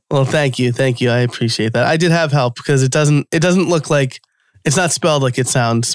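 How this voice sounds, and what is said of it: New York American accent. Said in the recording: “my New York American accent”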